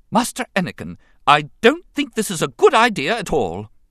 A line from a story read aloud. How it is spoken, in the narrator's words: C-3PO declared in a sharp tone of admonishment